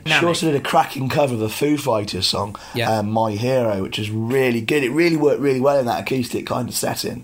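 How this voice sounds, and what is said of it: Hoarse, fading voice. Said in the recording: “Excuse my voice, I'm losing my voice slowly.”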